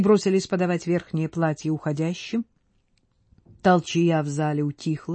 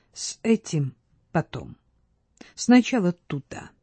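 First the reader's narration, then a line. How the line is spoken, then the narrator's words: Quiet, calm, firm. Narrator (Russian): тихо сказал кратко, спокойно, но решительно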